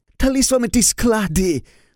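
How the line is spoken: Angry exclamation. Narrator (Russian): в сердцах воскликнул капитан Шольц

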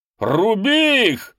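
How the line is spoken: Shouted. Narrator (Russian): закричал он

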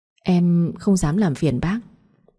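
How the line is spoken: Stammering. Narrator (Vietnamese): Anh ấp úng

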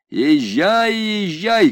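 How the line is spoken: Shout. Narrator (Russian): крикнул он

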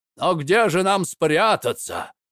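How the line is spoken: Shouted. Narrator (Russian): закричал Карло в красной шапке

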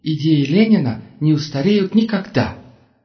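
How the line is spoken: Exclaimed, girl's voice. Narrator (Russian): воскликнула девушка

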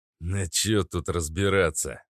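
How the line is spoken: Grumbling. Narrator (Russian): проворчал остроушка

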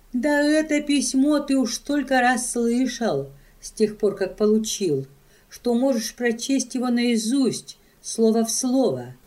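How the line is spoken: Plain. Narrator (Russian): ответила Катрина

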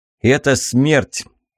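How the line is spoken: Ghost, no longer laughing. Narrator (Russian): Перестав смеяться, призрак

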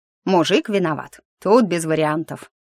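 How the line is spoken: Snorting. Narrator (Russian): хмыкнул Сиреневый

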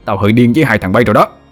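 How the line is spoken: Roar. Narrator (Vietnamese): Thằng Vinh gầm lên

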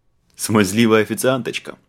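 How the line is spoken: Snorted. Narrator (Russian): фыркнул агент

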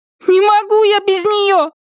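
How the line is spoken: Furious shout. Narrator (Russian): яростно закричала Триша

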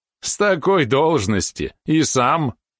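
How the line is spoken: Affable merchant's laugh. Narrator (Russian): Базанин рассмеялся, не выходя из роли располагающего к себе купца

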